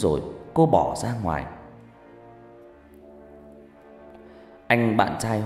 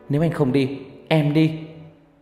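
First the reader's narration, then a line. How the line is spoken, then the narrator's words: Angry shout. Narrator (Vietnamese): Cô vẻ mặt giận dữ quát bạn trai của mình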